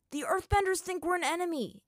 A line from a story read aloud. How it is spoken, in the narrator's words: Aang yelled to Zuko